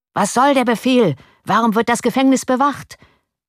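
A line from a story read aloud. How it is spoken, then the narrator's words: Crowd shouting. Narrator (German): schrien die Parteigänger des Hauses von Oranien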